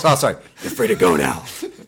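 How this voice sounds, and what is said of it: Batman character voice. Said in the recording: “aren't you even going to do the Batman voice?”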